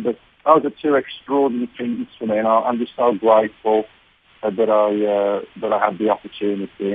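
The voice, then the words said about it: Birmingham English accent. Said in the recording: “you're both from Birmingham, you can understand each other's accents.”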